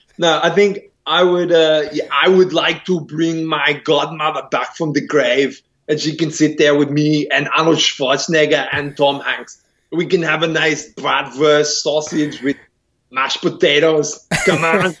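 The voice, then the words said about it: Arnold Schwarzenegger impression. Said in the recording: “do it in your Arnold Schwarzenegger voice ... speaking in an Arnie impersonation”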